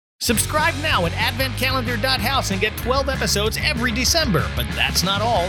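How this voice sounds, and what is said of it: Pushy car salesman pitch voice. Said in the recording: “talking like a car salesman”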